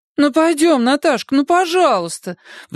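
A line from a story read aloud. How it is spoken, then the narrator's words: Pleading. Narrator (Russian): взмолилась подруга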